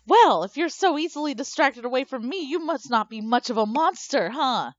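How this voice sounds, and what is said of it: Sultry female monster character voice. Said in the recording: “still using my sexy lady monster voice”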